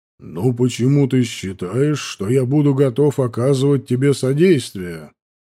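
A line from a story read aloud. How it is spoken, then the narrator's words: Plain. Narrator (Russian): спросил меня Ангарет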